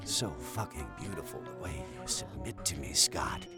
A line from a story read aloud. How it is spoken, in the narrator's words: his Dom growled